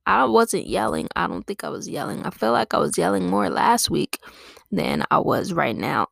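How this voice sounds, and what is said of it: Hoarse, failing voice. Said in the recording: “My voice was clear as fuck, like, 2 minutes ago... clearing my throat extremely loud... my voice is just gone”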